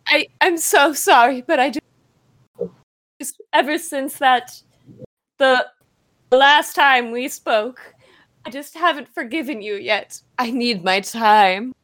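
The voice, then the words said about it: Strange, inconsistent put-on accent. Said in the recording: “my accent's all over the place ... your accent is so strange ... Are you putting it on for a role? ... I thought you were Castilian all this time”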